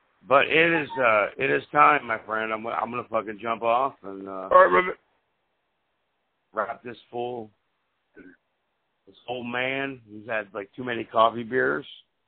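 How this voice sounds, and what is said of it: Hoarse, worn-out voice. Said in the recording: “my voice is shot as usual. I sound like I'm calling from, I'm calling from Scotland.”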